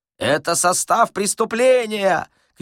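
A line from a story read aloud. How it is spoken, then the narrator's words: Group shouting. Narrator (Russian): кричали практиканты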